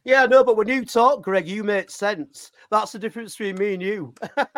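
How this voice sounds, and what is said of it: Cockney English accent. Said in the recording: “I don't have the Cockney accent.”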